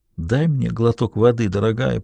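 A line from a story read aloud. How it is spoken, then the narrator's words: Whisper. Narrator (Russian): прошептал он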